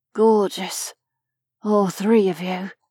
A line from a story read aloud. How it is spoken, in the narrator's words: murmured